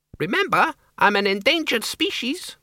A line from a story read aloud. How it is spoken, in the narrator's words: the Count squeaked